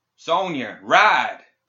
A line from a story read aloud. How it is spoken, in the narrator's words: He shouted over his shoulder